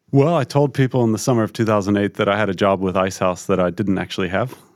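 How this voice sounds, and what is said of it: Lingering American accent. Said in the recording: “your lingering American accent”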